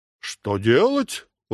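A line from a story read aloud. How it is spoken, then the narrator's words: Exclamation. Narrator (Russian): воскликнул Дон Кихот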